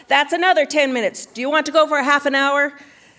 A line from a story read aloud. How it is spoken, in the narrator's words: and he yelled